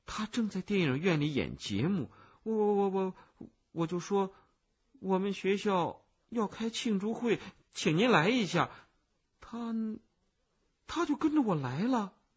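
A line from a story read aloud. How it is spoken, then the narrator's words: Quiet. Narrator (Chinese): 我小声的说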